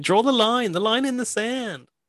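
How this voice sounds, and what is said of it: Put-on Australian accent. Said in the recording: “I just do an Australian accent when I do that line.”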